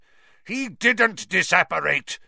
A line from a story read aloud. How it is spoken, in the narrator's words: Snape roared, now very close at hand